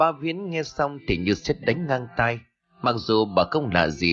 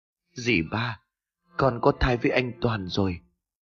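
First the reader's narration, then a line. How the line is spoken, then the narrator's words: Trembling, near tears. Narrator (Vietnamese): cất giọng run rẩy như sắp khóc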